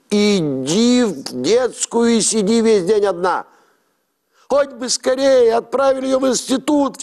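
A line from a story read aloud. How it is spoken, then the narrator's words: Sobbing aunt. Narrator (Russian): всхлипывала тетка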